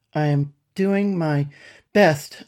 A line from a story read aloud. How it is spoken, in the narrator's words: panted